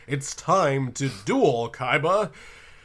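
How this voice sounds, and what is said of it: Booming announcer voice. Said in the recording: “announcer voice”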